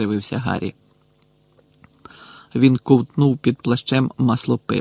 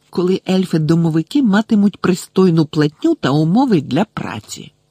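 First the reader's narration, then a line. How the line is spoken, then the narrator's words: Hissing reply. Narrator (Ukrainian): просичала вона у відповідь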